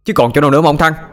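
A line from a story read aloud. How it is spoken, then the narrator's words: Shouting back. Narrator (Vietnamese): Sinh cũng hét lại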